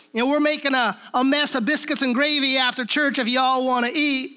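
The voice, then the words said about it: Twangy Southern hillbilly accent. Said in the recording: “hee-haw, hillbilly, kind of redneck Riviera accent ... kind of this twangy little thing”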